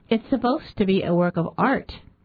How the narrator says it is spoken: Peterson said, as calmly as possible

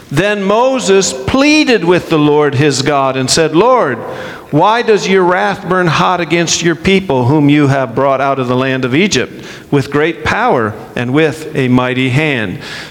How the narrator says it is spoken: So God says

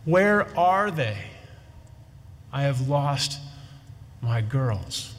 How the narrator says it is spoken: the mother's pleading with him

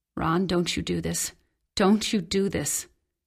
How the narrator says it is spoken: My mother said hoarsely

